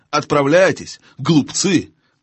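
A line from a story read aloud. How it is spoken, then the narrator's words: Witch shouting. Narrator (Russian): крикнула вслед им колдунья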